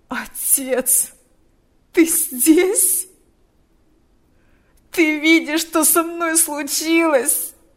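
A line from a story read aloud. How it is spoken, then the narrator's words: Moaning. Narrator (Russian): Стонал он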